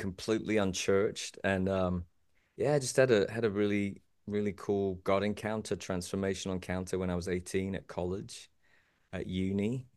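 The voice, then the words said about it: British English accent. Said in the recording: “picking up from the accent, I'm originally from the great motherland of England, a Brit”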